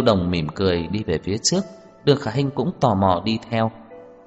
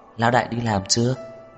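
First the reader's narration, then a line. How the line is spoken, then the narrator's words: Tired smiling question. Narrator (Vietnamese): Đường Khả Hinh mệt mỏi mỉm cười, hỏi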